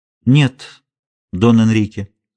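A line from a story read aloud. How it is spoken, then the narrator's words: Calm. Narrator (Russian): спокойно ответила донья Марина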